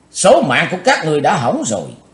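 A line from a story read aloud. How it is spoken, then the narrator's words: Forceful shout. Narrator (Vietnamese): Cùng theo tiếng quát, Chí Tôn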